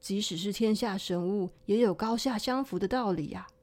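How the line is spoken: Sighing. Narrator (Chinese): 薛霞叹息说

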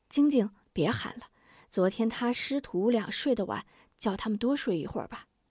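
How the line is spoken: Quiet. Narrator (Chinese): 吴夫人小声道

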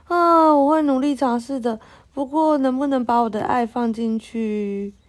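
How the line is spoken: Sighing. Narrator (Chinese): 路易斯叹了口气说

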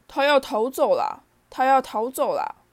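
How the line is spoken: Roaring. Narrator (Chinese): 佩妮，威龙一丈吼道

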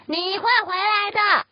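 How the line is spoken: Angry roar. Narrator (Chinese): 猫生气的大吼

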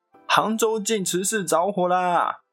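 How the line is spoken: Exasperated yet amused mother. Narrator (Chinese): 那母亲见状，又好气又好笑

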